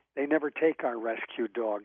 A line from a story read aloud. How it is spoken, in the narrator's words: said the manager